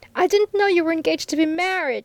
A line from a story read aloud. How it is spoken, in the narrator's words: she cried out passionately